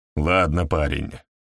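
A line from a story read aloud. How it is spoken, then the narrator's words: Grumbling. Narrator (Russian): проворчал инспектор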